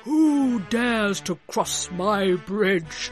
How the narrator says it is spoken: roared the troll

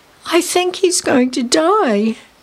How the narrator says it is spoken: Lisa cried

